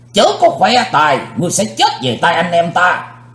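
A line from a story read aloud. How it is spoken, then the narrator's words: Thunderous shout. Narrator (Vietnamese): Tam Ái Viên Hồng Phương cũng quát tợ sấm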